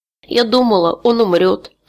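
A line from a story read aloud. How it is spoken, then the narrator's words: Sobbing. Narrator (Russian): всхлипывала она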